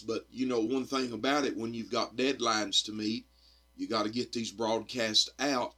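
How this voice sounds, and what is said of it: Hoarse, croaky voice. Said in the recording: “I'm a little hoarse ... sound like a bullfrog in a barrel”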